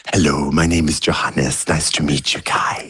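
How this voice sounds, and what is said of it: Imitates another person's voice. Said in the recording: “Good impression”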